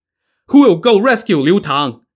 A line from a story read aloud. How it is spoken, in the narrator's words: Song Jiang shouted to his men